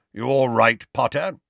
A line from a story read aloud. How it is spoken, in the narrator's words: grunted Moody